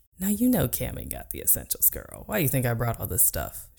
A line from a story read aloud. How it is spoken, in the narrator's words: She giggled, too long and hard for my taste, at her own quip